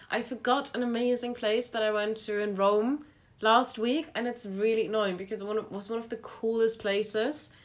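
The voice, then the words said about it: Sick, congested voice with sniffing. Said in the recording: “my voice sounds like shit when I talk. This is why I'm sniffing all the time... my voice sounds really ill”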